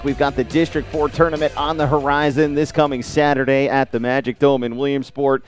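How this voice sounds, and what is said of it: Good radio voice. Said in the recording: “I'm jealous of your good radio voice.”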